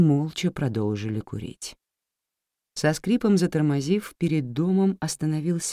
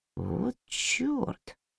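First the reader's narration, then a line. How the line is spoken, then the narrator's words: Quiet male voice. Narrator (Russian): тихо произнёс он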